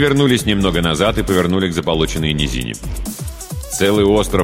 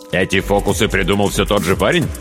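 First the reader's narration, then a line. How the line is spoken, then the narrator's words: Plain. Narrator (Russian): спросил Хедрик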